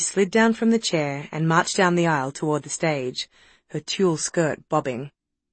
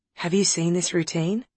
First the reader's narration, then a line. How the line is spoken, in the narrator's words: whispered Nick